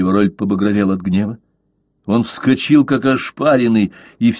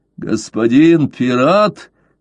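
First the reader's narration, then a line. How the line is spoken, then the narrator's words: Hoarse speech. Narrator (Russian): хрипло произнес де Ривароль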